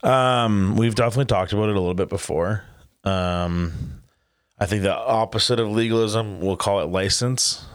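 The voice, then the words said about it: Raspy, sore-throated voice. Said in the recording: “my voice is a little raspy today. I have a sore throat, so it's just gonna sound a little crappy.”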